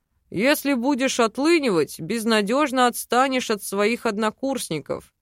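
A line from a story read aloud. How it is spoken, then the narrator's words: Grumbling. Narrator (Russian): проворчал Мар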